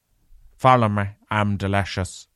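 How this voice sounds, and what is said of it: Impression of Garen Noon. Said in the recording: “I'm trying to do a Garen Noon impression.”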